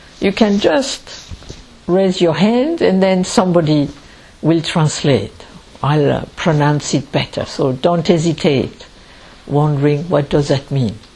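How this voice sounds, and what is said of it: French accent in English. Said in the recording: “I am French, and I speak English ... you don't understand my accent”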